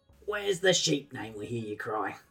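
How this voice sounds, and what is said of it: Put-on British accent. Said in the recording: “I'll do my best Pommy accent to match with Media Molecules”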